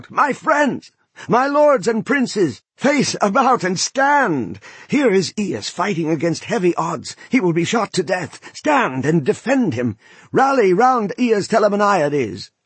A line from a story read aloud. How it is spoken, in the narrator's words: Eurypylus hobbled away, shrieking out